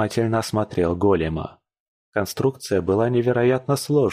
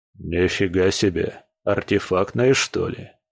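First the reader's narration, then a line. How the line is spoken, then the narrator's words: Muttered. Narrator (Russian): Пробормотал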